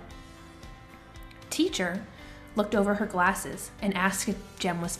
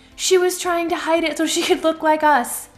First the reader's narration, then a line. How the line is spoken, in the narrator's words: someone yelled out